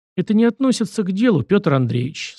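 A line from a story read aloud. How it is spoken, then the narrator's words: Calm. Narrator (Russian): спокойно ответил я за Дмитрия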